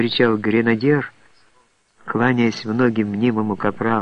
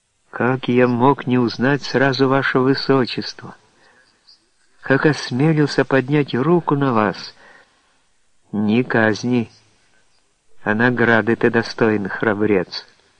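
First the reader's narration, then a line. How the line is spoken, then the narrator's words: Affectionate princess. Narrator (Russian): признала ласково цесаревна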